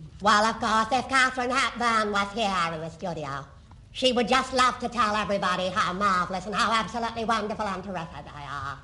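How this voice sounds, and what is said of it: Katharine Hepburn impression. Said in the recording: “Do Catherine Hepburn.”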